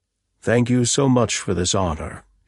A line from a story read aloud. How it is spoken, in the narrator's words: said smoothly and sincerely